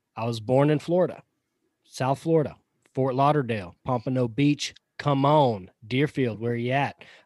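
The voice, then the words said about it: Southern US accent. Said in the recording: “this amazing Southern accent that you hear coming through the microphone every week”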